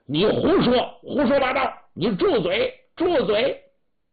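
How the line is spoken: Loud shout. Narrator (Chinese): 李耀珍在旁高声喊喝

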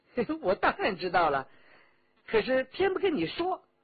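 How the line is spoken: Laughing. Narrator (Chinese): 李元直笑道

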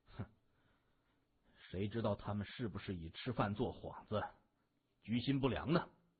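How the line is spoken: Harsh words. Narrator (Chinese): 萧芳的话呀，说的有点重

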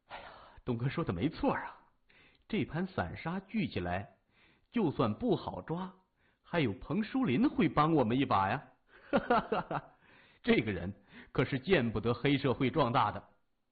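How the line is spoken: Laughing. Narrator (Chinese): 三眼笑着说

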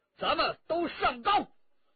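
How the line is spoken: Shouting. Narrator (Chinese): 陈家洛叫道

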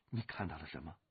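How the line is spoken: Calm voice turned anxious. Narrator (Chinese): 那淡淡的声音也变得有些焦灼

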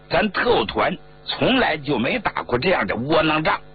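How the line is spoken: Angry. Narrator (Chinese): 团长杨家瑞怒道

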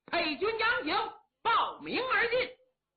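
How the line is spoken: Shout from inside. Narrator (Chinese): 里边有人喊

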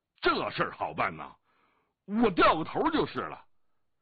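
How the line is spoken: Loud shout. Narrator (Chinese): 降龙大声喊道

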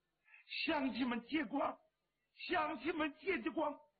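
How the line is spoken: Woman crying. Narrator (Chinese): 有个女人哭着

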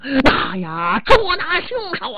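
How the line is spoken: Many men shouting together. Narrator (Chinese): 十几名官人齐声喊嚷

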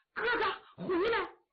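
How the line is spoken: Urgent loud shout. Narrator (Chinese): 穆桂英 急忙 高喊

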